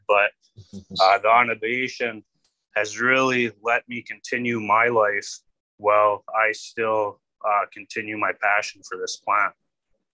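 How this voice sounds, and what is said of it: Slight Canadian-sounding accent. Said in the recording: “a little bit of a Canadian accent”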